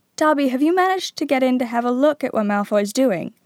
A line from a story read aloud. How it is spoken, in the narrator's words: said Harry eagerly